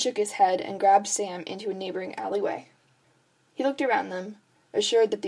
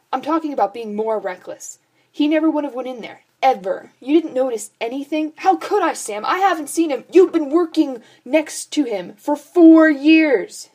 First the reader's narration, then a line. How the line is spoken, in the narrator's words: shouted